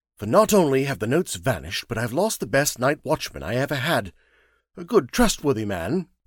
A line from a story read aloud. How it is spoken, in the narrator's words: Brent sharply